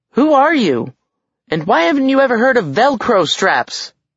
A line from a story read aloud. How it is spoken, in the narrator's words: Alex yelled